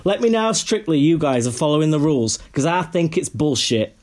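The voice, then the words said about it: Put-on Yorkshire accent. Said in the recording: “Did I get the Yorkshire accent? ... You did it perfectly. ... You're spot on.”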